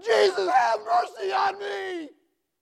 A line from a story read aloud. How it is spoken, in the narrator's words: he shouted all the louder